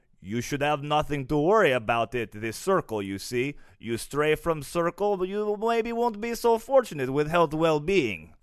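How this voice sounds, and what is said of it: Put-on foreign accent. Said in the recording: “that's terrifying with that accent”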